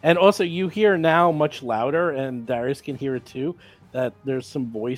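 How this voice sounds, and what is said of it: Usual voice. Nothing is said of it.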